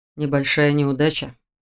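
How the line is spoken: Quiet question. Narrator (Russian): тихо спросил Ян Арс

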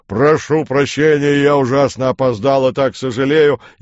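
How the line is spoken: Booming deep bass proclamation. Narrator (Russian): какой-то дурак жирным басом провозгласил

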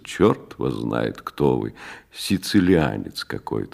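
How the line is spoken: Sleepy. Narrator (Russian): сказал он сонно

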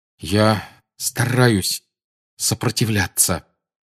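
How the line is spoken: Forced through clenched teeth. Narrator (Russian): выдавил Гарри сквозь стиснутые зубы

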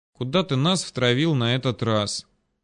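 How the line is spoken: Sleepy mutter. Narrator (Russian): с трудом преодолевая сонливость, пробормотала Вера

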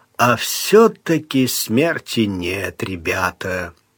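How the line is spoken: Drawled with vacant grin. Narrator (Russian): Он улыбаясь широко и бессмысленно, протянул

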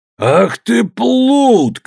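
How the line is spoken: Shout. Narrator (Russian): крикнул сириец, видимо, хорошо говоривший на аттическом наречии

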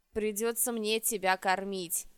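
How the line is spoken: Displeased mutter. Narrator (Russian): недовольно пробурчал Рыжий

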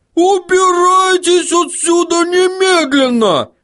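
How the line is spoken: Yelling female gnome. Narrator (Russian): заорала гномиха

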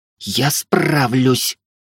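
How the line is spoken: Hoarse wheeze. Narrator (Russian): прохрипела Велея

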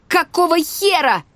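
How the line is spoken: Shout into the wind. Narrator (Russian): закричала я на ветру

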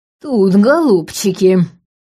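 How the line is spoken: Creaky old woman's voice. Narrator (Russian): Проскрипела баба Глаша

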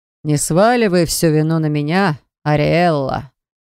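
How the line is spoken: Amused smirking grunt. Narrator (Russian): хмыкнул блондин

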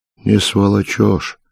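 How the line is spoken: Calm objection. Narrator (Russian): спокойно возразил леваш

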